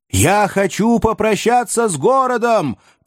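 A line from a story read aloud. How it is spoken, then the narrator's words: Shout. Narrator (Russian): прокричал мастер Азазелла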